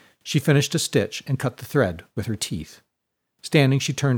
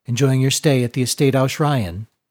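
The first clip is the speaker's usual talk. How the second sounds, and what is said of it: Husky female character voice. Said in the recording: “spoke for the first time in a husky voice”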